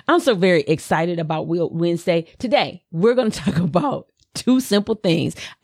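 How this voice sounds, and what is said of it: Slight Southern US accent. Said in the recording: “my little Southern accent comes out a little bit”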